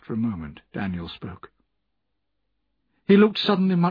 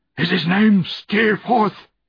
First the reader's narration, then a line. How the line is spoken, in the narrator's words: cried Daniel wildly